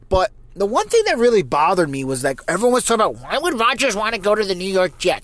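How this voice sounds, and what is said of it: New Jersey accent. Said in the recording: “if you can't tell from my accent, I am from New Jersey”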